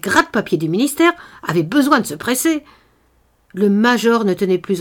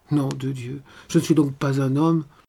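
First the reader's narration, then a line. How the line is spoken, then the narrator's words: Growling, holding back tears. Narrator (French): grogna-t-il en renfonçant ses larmes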